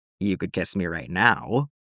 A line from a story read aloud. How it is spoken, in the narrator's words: heart did a little flip again, rumbled in ear